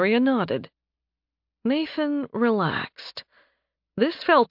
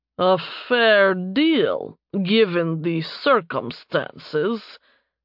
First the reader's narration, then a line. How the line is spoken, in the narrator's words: Doran grunted out